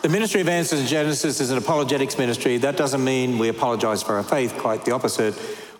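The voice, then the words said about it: Australian accent. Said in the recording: “I do have a deep Southern accent, but it's from a different Southern. So I originally come from Australia. I hope I still sound Australian.”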